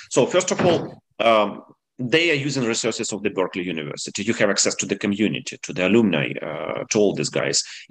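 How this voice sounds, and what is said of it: Non-native English accent. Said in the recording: “my accent ... highlighting that I came from another part of the world”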